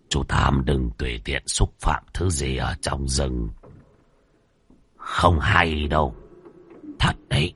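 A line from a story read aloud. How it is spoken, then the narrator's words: Soft reminder. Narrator (Vietnamese): Lão ăn mày khẽ nhắc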